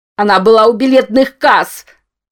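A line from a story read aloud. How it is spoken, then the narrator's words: Desperate straining shout. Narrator (Russian): выкрикнул Рамон, отчаянно выдираясь из упорно поглощающей его темноты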